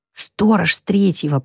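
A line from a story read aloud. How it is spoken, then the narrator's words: Whispered. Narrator (Russian): прошептал Лэри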